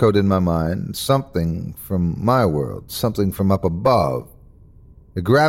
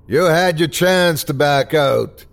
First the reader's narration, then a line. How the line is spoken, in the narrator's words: screamed the bartender